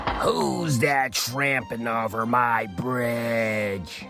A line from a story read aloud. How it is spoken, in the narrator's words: roared the troll